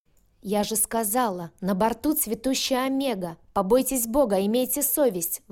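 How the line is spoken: Young ringing female shout. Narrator (Russian): выкрикнула женщина с довольно молодым и звонким голосом

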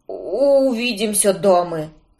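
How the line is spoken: Hoarse, in pain. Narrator (Russian): прохрипел он, схватившись за бок

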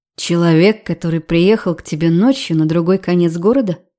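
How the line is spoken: Calm question. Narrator (Russian): Спокойно поинтересовался он

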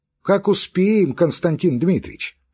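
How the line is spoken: Plain. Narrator (Russian): сказал приказчик

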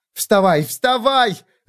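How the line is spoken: Yelling. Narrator (Russian): заорала я

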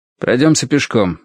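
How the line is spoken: Sharp. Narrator (Russian): сказал он резко

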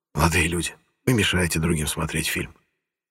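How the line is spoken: Whisper. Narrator (Russian): шепотом сказал

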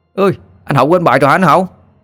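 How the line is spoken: Children shouting. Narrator (Vietnamese): Bọn trẻ con bên ngoài sân thì họ hét lên

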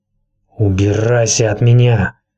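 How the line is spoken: Hiss. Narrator (Russian): прошипел Визерис

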